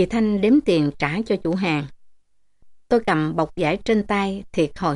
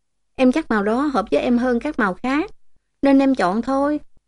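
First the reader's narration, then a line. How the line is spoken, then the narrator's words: Smiling. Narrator (Vietnamese): Tôi mỉm cười nói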